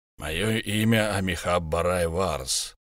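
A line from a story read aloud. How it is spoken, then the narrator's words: Low creaky voice. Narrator (Russian): проговорил он низким скрипучим голосом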